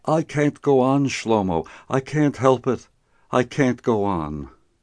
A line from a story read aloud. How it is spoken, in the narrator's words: Meyer Katz only groaned in response